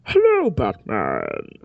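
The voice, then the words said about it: Bane impression through tin can. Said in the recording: “It's a tin can. I can do a Bane impression with him, kind of.”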